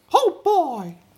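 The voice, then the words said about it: Mickey Mouse cartoon voice. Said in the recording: “I try and do the Mickey Mouse one ... That's really good.”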